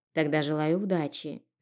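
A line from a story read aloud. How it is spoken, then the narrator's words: Gentle. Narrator (Russian): мягко пожелала хозяйка кофейни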